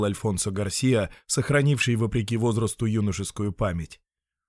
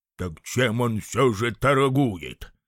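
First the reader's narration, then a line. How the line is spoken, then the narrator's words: Grumbling. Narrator (Russian): ворчал Эдуардо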